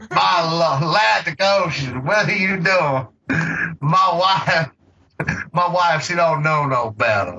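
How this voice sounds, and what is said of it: Exaggerated, bad Southern accent. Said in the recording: “he just decided to put on this fucking, like, horrible Southern accent”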